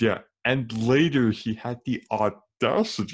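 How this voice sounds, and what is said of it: Usual voice. Nothing is said of it.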